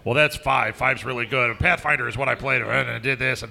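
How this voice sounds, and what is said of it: Mocking impression of a friend. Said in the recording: “that was an impression, and that's what you that's what you sound like.”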